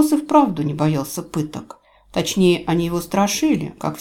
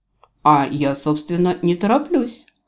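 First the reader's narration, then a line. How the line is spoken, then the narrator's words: Snorting. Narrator (Russian): хмыкнул канцлер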